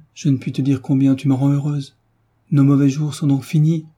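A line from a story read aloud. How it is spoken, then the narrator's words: Quick, lively. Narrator (French): dit vivement Madame Bastien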